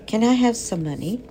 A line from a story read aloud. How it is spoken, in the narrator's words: asked Fern